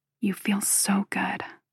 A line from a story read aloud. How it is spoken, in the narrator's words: I say quietly